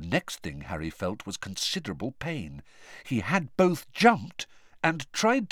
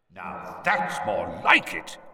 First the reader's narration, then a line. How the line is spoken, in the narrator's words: growled Moody's voice